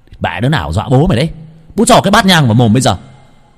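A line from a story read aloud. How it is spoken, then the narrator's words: Shouting. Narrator (Vietnamese): Nam hét lên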